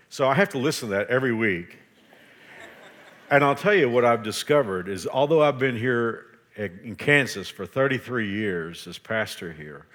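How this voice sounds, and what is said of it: Texas accent. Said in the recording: “I still have a horrible Texas accent. And you can really tell it on the word power.”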